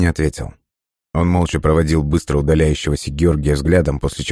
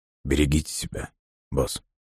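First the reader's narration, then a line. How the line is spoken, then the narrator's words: Hesitant, barely audible. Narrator (Russian): Лосенко колебался, а затем еле слышно произнес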